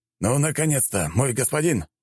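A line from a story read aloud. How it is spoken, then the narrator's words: Exclaimed. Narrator (Russian): воскликнул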